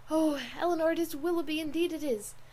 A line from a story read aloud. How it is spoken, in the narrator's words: In the ecstasy of her feelings at that instant, she could not help exclaiming